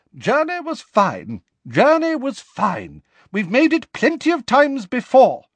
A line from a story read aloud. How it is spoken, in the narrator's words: she said impatiently